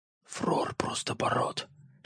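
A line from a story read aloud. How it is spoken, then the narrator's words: Whispered. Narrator (Russian): шепнул мне Ворин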